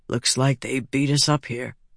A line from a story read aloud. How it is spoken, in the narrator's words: Vatha said softly